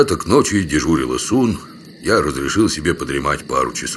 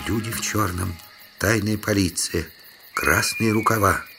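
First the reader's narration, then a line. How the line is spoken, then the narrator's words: Whispered in ear. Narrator (Russian): прошептал мне на ухо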